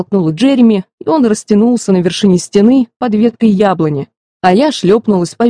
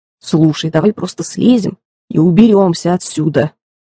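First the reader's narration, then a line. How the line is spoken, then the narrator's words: Grumbling mutter. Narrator (Russian): пробурчал Джереми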